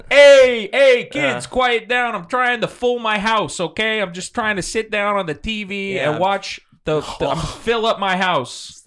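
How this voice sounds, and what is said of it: Bad put-on Brooklyn accent. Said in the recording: “It's better when you add the Brooklyn accent. ... It's really bad.”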